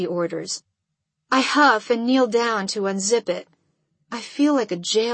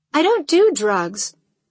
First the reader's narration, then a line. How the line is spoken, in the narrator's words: I respond sharply